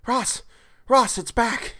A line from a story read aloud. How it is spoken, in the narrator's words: cried into the transmitter